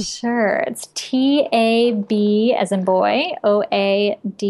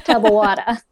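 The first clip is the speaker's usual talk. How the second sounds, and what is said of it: Thick New York accent. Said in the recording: “try saying tub of water with like a thick New York accent.”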